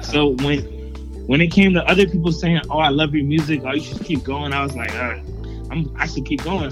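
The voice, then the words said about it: Proper-sounding accent. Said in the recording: “Where is this accent from, sir? ... I sound very proper.”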